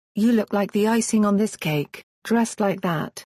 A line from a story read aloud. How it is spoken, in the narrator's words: Noah moaned